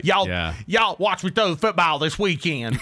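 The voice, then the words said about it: Exaggerated, poor Southern accent. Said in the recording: “with a really terrible Southern accent”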